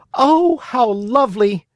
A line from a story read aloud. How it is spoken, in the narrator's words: cried Pinocchio, jumping with joy